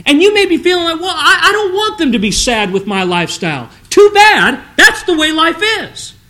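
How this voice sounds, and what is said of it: Upset, agitated speaking voice. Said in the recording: “I sound upset, I'm upset.”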